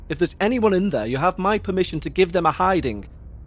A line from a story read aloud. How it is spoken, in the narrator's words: shouted Mr